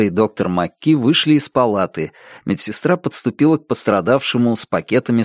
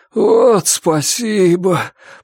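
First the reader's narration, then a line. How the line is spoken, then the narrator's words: Groan. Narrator (Russian): простонал Джейк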